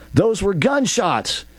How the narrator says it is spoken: Michael shouted as the second four shots went off

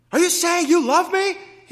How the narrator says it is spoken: He yelled

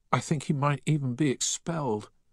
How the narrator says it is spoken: whimpered Deakins

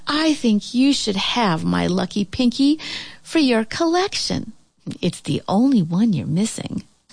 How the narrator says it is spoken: she let out a big sigh and said

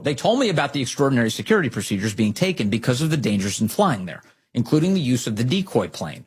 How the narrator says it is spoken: she said

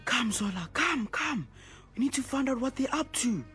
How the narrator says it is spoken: Sipho whispered to Zola

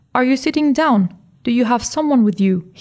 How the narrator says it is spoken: he asked

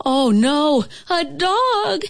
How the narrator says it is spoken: squeaked Teeny

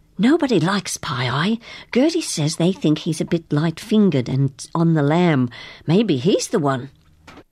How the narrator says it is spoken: she whispered

